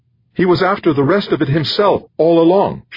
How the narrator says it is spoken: she shouted

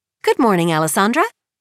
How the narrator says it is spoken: Edie says brightly

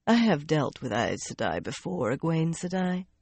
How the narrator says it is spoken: the other woman said dryly

